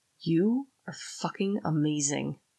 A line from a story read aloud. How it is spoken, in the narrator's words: I whispered in her ear